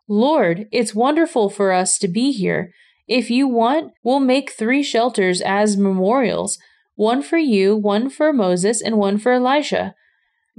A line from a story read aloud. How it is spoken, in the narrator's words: Peter exclaimed